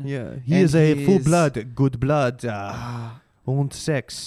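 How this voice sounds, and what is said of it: Bad mock French accent. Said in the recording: “my French accent, very bad... how you do the French accent”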